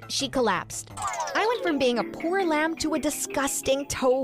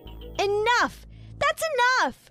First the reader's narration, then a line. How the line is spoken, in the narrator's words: I shouted